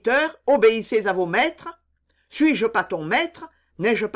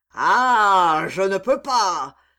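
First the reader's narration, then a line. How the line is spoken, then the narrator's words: Hideous roar. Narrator (French): dit Legris avec un hideux rugissement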